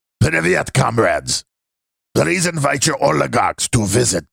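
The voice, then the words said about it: Put-on character voice. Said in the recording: “I have to read in my CSB voice. This is not easy to do CSB voice.”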